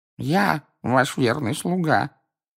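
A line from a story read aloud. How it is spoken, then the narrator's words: Sullen mumble. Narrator (Russian): угрюмо пробурчал Хвост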